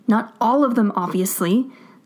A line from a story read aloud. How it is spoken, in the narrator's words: Stiles snaps